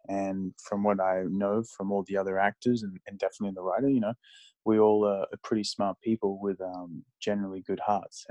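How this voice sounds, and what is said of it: Australian accent. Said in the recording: “accent, you're originally from Australia.”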